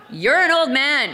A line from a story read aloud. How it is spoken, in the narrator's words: I yelled